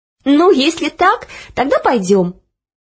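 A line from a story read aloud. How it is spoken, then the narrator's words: Laughing. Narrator (Russian): рассмеялась Оля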